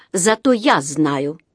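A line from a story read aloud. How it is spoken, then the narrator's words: Unyielding voice. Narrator (Russian): сказала она непреклонным голосом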